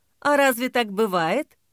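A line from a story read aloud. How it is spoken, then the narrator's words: Laughing. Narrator (Russian): Ксения засмеялась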